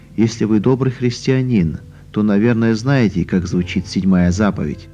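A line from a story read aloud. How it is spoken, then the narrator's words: Calm. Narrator (Russian): Она ответила спокойно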